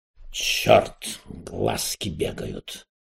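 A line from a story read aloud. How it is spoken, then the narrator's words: Muttered. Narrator (Russian): пробормотал Эраст Петрович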